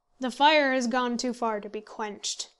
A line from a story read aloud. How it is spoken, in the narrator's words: said Towers